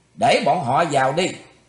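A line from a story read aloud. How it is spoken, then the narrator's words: Deep stern command. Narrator (Vietnamese): Thủy Tuấn Hào trầm giọng quát lên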